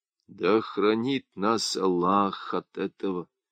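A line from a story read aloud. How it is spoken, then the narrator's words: Chronicler's whisper. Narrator (Russian): прошептал летописец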